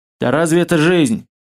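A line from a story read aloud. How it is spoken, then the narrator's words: Puzzled snort. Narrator (Russian): Маслов озадаченно хмыкнул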